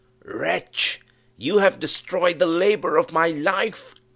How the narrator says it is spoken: he shrieked aloud

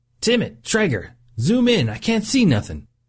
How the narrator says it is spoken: Cox yelled over the silence

